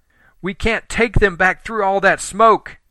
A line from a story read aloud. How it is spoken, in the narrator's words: Helen yelled